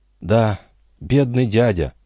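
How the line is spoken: Sighed. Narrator (Russian): вздохнул Жюэль

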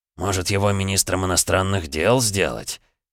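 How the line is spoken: Emperor's amused snort. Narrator (Russian): хмыкнул император

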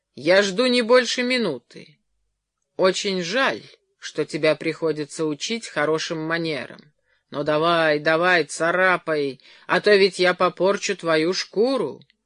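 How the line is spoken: Calm. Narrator (Russian): спокойно говоря

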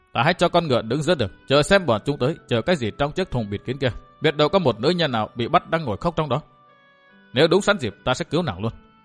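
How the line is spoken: Muttering. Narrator (Vietnamese): Thạch Kiếm Cửu lẩm bẩm

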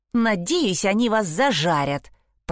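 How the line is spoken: Hissed. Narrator (Russian): прошипела она

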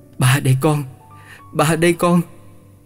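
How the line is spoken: Stammering trembling voice. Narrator (Vietnamese): giọng lập bập run run

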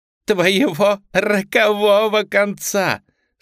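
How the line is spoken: Delighted laughing repetition. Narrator (Russian): смеясь, повторила Марта, хлопая в восторге

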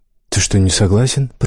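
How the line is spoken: Whisper. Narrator (Russian): прошептал король

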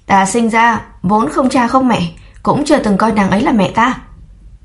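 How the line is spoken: Angry yell. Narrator (Vietnamese): Trầm Nguy tức giận gào lên

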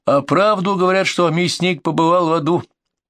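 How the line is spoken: Bold shout. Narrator (Russian): Сергей осмелился и крикнул

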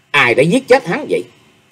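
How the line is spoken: Seething, angry question. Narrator (Vietnamese): Chàng không sao đè nén được lửa giận, hậm hực hỏi

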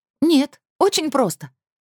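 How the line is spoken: Exclaimed. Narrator (Russian): воскликнула Кассандра

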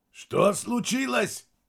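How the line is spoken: Shout. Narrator (Russian): прокричал Мирадзе

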